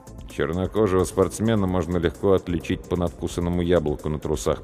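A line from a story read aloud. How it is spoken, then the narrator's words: Muttered. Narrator (Russian): пробормотал я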